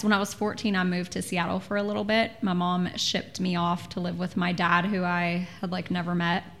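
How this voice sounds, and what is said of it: Texan accent. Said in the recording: “I'm a Texan. ... I have the accent and everything.”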